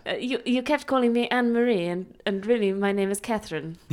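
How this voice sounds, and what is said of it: Old-fashioned period accent. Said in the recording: “You're from Wuthering Heights now ... I'm just doing the correct period accent, darling.”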